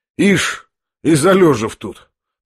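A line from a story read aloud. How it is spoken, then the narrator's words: Triumphant, spiteful mutter. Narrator (Russian): пробормотал Рогожин, с торжествующей и даже как бы злобной улыбкой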